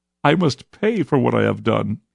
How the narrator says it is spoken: he wailed

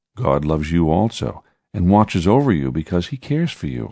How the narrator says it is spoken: I said

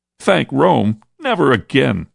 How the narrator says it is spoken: shouted the young man who had sobbed

